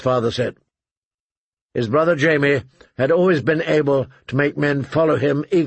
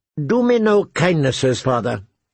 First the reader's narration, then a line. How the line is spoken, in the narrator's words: he said angrily